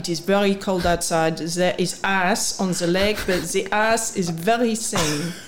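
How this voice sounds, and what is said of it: Convincing put-on French accent. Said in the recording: “a French accent, or... It was a brilliant French accent... I thought that was a pretty good accent. It's better than I can do.”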